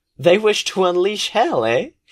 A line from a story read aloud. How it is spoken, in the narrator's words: Eris laughs